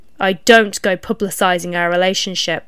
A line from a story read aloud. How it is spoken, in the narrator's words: X cut in coldly